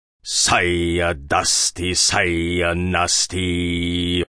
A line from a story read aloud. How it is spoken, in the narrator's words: Hagbard intoned